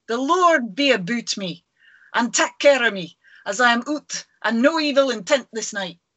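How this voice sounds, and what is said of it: Good put-on Scottish accent. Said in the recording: “That was a great Scottish accent.”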